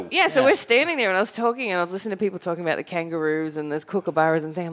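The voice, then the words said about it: Australian accent. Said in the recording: “Coming from Australia ... they heard my accent”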